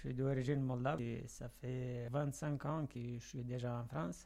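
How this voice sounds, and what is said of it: Moldovan accent speaking French. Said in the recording (French): “votre bel accent ... vous êtes d'origine moldave ... l'accent il est resté”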